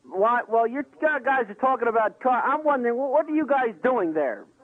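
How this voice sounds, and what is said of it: Speaks with an accent. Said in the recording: “I have an accent.”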